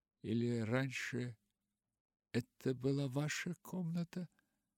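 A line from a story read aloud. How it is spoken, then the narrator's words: Timid question. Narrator (Russian): робко спросила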